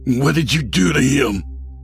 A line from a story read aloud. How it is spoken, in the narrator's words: Fred snarled